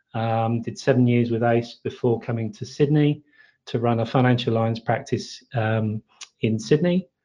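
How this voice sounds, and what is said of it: British English accent. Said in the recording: “As you can probably tell from my accent, I come from the UK.”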